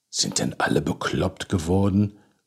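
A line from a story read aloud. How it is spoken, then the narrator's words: Muttered. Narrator (German): murmelte Krischan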